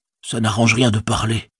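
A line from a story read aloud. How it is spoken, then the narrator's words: Muttered to himself. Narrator (French): murmura-t-il pour lui-même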